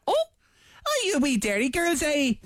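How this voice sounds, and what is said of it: Put-on Northern Irish accent. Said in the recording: “I had a bit of a northern accent there ... she's from Northern Ireland”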